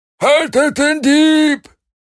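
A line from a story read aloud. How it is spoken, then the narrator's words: Another voice bellowing. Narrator (German): ein anderer fügte brüllend hinzu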